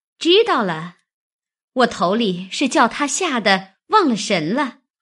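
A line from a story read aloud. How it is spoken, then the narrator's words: Laughing. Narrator (Chinese): 湘云笑道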